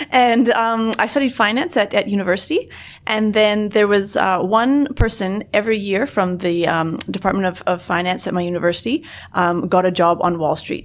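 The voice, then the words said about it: Canadian accent. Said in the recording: “I'm originally from Canada, as you may be able to tell from my accent.”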